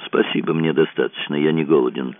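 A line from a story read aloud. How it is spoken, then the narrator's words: Mumbled. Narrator (Russian): пробормотал Сьюк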